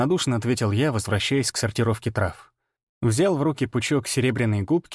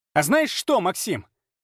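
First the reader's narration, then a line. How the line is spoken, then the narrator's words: Shrill grating shout. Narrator (Russian): крикнула она, и голос стал пронзительным, как виск ржавого железа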